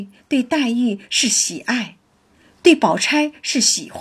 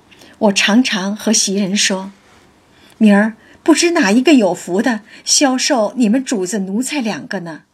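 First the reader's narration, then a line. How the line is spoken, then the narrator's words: Laughing. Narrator (Chinese): 宝玉笑道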